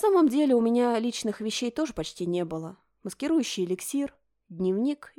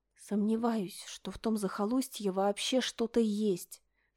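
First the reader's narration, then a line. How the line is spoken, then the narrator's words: Whispered. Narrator (Russian): шепотом поведала она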